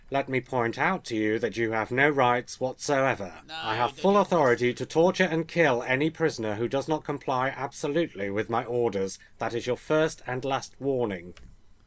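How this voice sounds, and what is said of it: Poor impression of a character voice. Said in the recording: “I'll try and do the voice ... that was a really poor impersonation”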